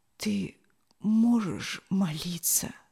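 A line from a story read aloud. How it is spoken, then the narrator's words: Whisper. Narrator (Russian): прошептал он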